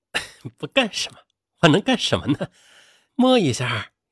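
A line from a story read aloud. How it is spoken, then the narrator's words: Leering laugh. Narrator (Chinese): 党承喜他却淫笑着说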